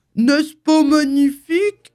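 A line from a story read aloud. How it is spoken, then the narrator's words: Shouted from above. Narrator (French): cria Winnie l'ourson d'en haut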